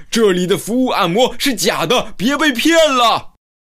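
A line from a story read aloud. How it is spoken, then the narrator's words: Shouting. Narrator (Chinese): 吼出这句话，科顿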